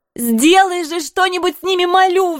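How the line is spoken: Roaring plea. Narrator (Russian): взревела я

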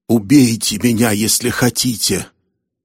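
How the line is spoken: Dreamlike moan. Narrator (Russian): простонал он, как во сне

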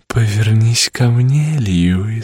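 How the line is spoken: Sugary sweet voice. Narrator (Russian): сказала она приторным голосом, которым обращалась к нему впервые

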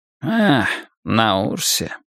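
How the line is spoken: Muttered. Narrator (Russian): пробормотал Селен

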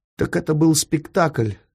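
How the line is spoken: Shaky, forced bravado. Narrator (Russian): нетвердым голосом произнес храбрящийся Фондорин

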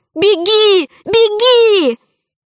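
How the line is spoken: Shouting. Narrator (Russian): Алиса кричала

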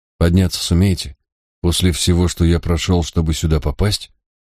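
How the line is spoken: Quiet question. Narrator (Russian): Ликон негромко спросил

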